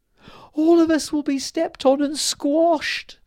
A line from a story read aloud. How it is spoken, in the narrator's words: cried the fairy queen